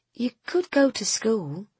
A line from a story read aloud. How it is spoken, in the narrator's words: she said, as gently as she was able